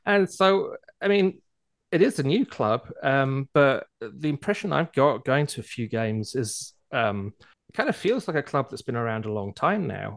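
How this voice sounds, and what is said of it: British accent. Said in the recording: “you can tell from my accent, come from Europe eventually, originally from Britain”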